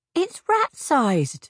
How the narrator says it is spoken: Lena cried

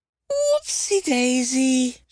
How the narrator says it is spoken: she squealed

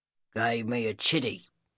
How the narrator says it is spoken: Seth grunted

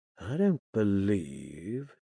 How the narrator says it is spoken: he murmured against my lips

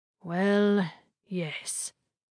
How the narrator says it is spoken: Samsu sighed

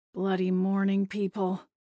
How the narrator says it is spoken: Maggie muttered

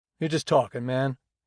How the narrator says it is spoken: he said

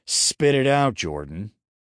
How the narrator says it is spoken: growled

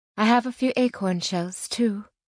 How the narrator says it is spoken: Angelique said

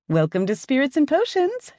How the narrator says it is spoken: she chirps

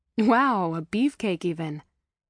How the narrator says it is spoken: said with a laugh

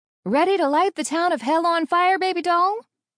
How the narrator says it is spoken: She hollered

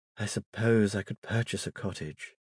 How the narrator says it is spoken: she sighed in answer to Priscilla's question

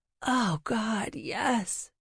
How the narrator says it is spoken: groaned

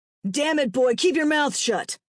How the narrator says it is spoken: Gavin barked

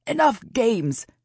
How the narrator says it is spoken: shouted

